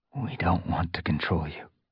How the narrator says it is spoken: Firestar rasped

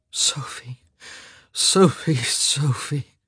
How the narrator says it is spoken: he groaned

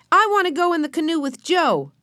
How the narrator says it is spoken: cried Benny, jumping up and down

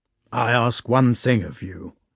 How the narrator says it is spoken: he said sternly

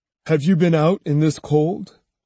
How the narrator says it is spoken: he asked

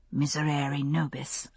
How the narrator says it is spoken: under her breath

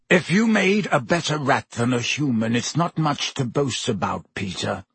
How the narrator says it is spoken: said Black harshly

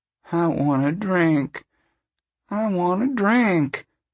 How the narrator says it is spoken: Winfield moaned

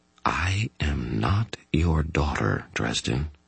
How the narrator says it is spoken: she said in a very soft, calm voice

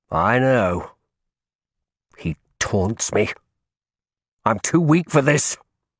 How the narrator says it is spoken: I burst out savagely

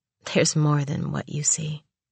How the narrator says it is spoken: she said softly

